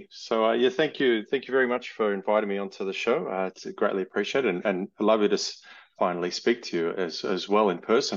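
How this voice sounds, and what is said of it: Australian accent. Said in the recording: “I'm Australian, as you can hear from my accent”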